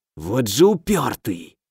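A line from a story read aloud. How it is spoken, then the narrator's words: Irritated hiss. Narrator (Russian): с раздражением прошипел некромант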